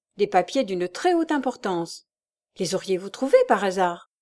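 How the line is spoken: Young man's brisk reply. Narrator (French): répliqua vivement le jeune homme

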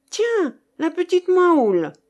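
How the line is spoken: Exclaiming. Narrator (French): s'écria

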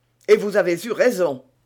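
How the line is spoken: Exclaimed in unison. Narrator (French): s'écrièrent d'une seule voix Porthos et Aramis

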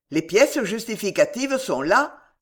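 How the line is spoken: Quick retort. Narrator (French): répliqua vivement M

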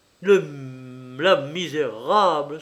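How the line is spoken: Anguished, furious cry. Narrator (French): s'écria-t-il, fou de douleur et de rage

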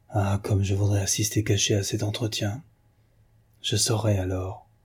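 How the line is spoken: Almost whispered. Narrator (French): Elle dit, presque à voix basse

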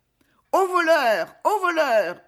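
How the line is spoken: Screaming. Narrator (French): hurla-t-elle

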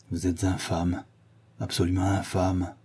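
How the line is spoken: Murmured. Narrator (French): murmura-t-il

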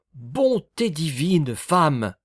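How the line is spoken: Exclaiming. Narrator (French): s'écria-t-il

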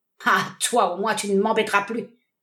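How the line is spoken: Sneering laugh. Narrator (French): ricana-t-il

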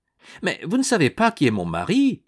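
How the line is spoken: Exclaiming. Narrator (French): s'écria Yolande

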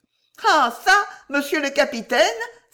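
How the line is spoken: Exclaimed. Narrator (French): s'exclama Tiennette

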